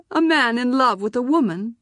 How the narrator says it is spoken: Azak said and laughed

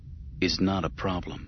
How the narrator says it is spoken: he murmured to Palpatine and to himself

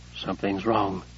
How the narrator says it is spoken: Josh murmured

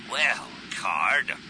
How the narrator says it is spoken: he growled

